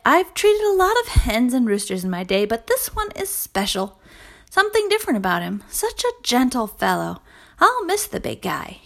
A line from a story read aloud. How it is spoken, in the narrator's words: sighed